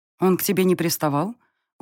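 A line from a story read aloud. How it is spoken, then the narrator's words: Cold questioning. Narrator (Russian): уточнила я холодно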